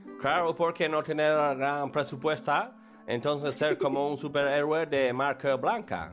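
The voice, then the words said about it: Broken Spanish with foreign accent. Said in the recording (Spanish): “él hace un esfuerzo por hablar español. Un poco con acento.”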